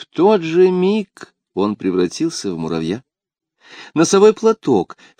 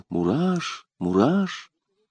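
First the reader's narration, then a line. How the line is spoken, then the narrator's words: Quiet, hesitant call. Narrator (Russian): Людовик собрал все свое мужество и тихо позвал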